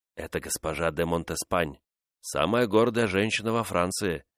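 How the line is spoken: Whispered. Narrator (Russian): шепнул де Катина

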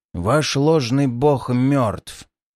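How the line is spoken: Rough hoarse rasp. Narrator (Russian): прохрипел я, сам поражаясь тому, насколько грубо и необычно теперь звучит мой голос

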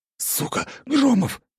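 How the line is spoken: Loud group whisper. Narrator (Russian): Громко зашептались они

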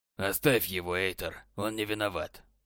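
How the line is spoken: Cold. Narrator (Russian): холодно сказал советник

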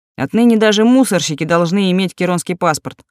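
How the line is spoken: Snorting friend. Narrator (Russian): хмыкнул приятель

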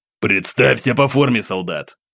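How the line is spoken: Commander's growl. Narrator (Russian): Рыкнул ком части

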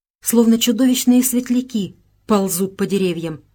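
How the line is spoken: Exclaiming. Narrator (Russian): воскликнула Беатрис

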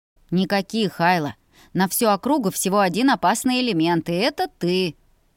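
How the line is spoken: Laughing. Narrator (Russian): засмеялся

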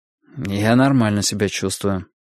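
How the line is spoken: Dry reply. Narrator (Russian): сухо ответил я

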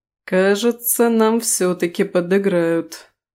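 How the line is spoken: Sigh with a smile. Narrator (Russian): не сумев скрыть улыбку, вздохнул Рис

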